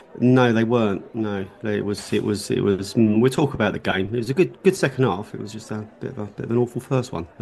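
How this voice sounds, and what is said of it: Congested voice with a cold. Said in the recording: “I've got a bit of a cold, actually. Like a pre-Bournemouth sniffles.”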